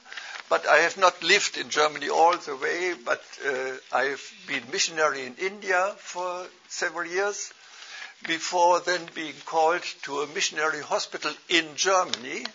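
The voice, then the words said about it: German accent. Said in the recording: “My accent gives me away. I'm a German.”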